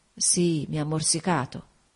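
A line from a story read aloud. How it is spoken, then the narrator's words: Murmured. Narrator (Italian): mormorò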